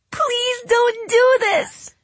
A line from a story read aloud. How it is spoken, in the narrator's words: she yelled, trying to pry herself from his grasp